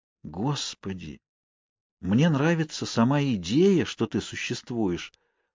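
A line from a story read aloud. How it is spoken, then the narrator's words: Whisper aloud. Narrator (Russian): вслух прошептала Кейт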